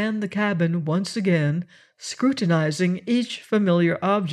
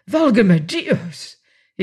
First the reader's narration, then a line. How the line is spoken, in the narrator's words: cried out like a man in anguish